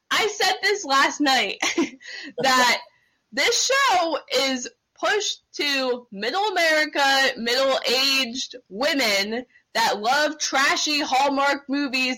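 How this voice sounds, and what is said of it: Yelling, loud raised voice. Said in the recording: “I'm sorry that I'm yelling.”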